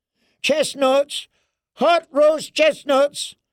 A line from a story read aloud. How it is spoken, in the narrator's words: a peddler cried